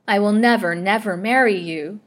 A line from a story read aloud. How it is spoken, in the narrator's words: she cried with passionate defiance